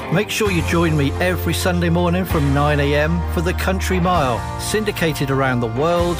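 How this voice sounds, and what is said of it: Devon English accent. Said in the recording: “all the way from Devon in the southwest of England. You know, where we all drink tea and have funny accents”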